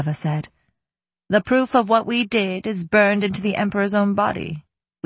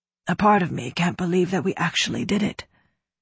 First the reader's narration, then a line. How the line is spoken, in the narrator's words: Gautna said softly